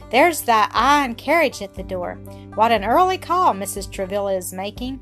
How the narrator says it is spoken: Adelaide exclaimed

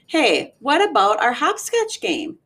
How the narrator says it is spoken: Jenny asked

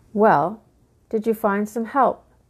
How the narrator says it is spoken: asked

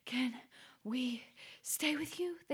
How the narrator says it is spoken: squeaked between breaths

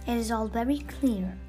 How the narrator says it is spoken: I replied

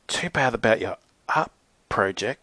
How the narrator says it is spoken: Zoe stammered nervously

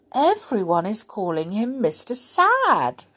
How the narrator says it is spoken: exclaimed Mr

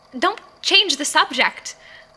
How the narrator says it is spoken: I snapped

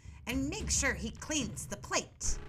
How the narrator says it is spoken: she snapped angrily at Gretel

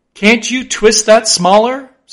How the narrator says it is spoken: said Flask

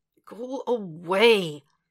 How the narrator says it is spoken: He groans

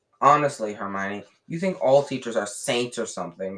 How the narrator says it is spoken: snapped Ron

